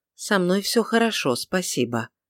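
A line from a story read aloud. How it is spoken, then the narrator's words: Quiet. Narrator (Russian): негромко ответила Тельма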